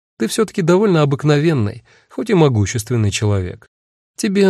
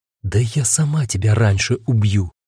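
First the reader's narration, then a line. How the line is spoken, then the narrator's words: Barely audible whisper. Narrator (Russian): наконец прошептала Агата, так тихо, что я не услышал, а догадался по движению губ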